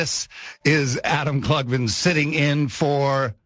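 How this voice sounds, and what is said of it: Usual voice. Nothing is said of it.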